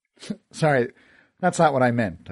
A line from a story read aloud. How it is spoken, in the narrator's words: I laughed